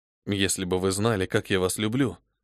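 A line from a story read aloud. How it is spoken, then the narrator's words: Quiet. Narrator (Russian): сказал я тихо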